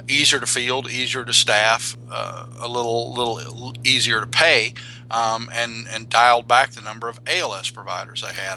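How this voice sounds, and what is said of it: Slow speech with regional accent. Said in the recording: “just coming in with that accent ... I talk slow.”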